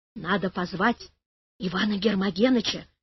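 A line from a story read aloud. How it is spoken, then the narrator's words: Quiet. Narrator (Russian): тихо сказала Валя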